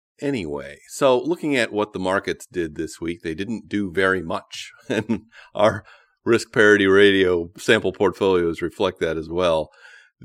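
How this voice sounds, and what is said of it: Voice sounds affected by a cold. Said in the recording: “I do apologize for my voice today. I've got a bit of a cold.”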